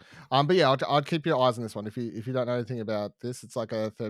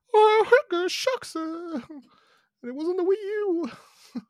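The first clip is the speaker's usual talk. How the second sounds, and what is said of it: Mickey Mouse cartoon character voice. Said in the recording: “my Mickey Mouse impression”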